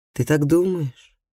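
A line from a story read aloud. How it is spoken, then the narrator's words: Glum. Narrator (Russian): уныло сказал он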